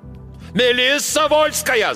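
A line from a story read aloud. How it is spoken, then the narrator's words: Shouting. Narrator (Russian): заорал капитан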